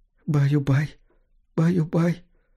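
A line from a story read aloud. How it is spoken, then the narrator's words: Tearful whisper. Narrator (Russian): шептала женщина сквозь слезы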